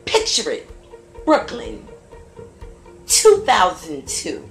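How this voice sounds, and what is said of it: Sophia Petrillo voice impression. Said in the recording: “in my Sophia Petrillo voice.”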